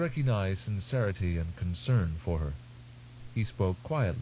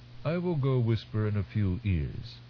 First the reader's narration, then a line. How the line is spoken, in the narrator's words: he said